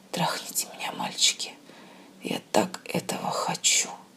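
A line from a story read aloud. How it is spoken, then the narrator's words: Passionate whisper. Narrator (Russian): страстно прошептала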